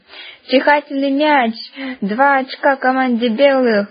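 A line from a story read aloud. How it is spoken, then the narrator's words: Laughing. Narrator (Russian): засмеялся Ванька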